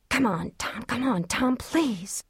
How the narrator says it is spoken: Trisha whispered

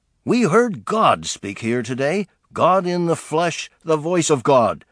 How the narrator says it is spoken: exclaimed Republican Representative Dewey Short of Missouri, a former preacher

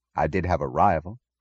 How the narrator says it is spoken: said Dr

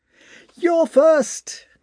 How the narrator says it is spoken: cried Ilin, flushed

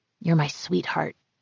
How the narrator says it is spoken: he whispered

